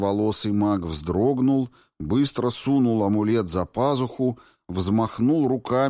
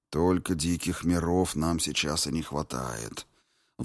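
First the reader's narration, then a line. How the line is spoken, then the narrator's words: Sigh. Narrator (Russian): вздохнул бывший первый ворон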